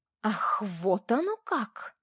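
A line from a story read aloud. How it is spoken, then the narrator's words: Hostile, through gritted teeth. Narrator (Russian): недобро процедила Маша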